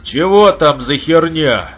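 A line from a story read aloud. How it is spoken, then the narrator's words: Loud question. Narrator (Russian): громко спросил он у улицы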